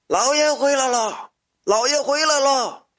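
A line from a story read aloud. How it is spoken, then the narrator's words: Old man shouting loudly. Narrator (Chinese): 那老头高声喊着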